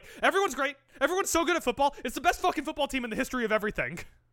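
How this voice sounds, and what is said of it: Panicked imitation of another person's voice. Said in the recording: “he sounds so panicked ... that sounded a lot like your Tony Khan impression”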